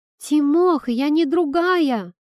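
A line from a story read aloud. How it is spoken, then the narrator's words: Female exclamation. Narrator (Russian): воскликнула Кира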